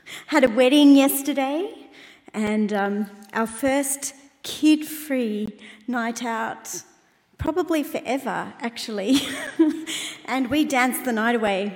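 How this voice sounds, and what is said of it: Croaky voice. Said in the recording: “my voice is a bit croaky, I'm not sick”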